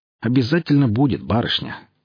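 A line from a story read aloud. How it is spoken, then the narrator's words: Snorting. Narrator (Russian): хмыкнул сионист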